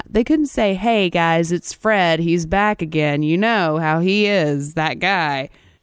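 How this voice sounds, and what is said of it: Imitates another person's voice. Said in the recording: “Like Christopher Walken, apparently. I don't know why I've drifted into this accent.”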